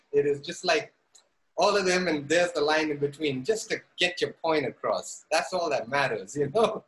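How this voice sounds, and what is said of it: Zambian English accent, mixed influences. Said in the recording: “my accent, which is not like the African way, and it is not like the very Indian way ... especially in Zambia ... this is their accent ... it's the middle path ... It could also be a little British, it could be a little Cockney”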